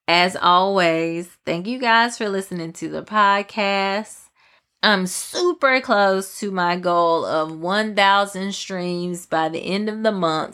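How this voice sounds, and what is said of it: Southern country accent. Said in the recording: “listening to me rant in my country accent”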